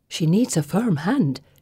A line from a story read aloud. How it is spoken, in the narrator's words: she whispers